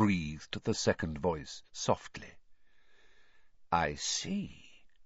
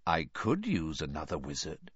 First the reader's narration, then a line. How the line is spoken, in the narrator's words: said the first voice softly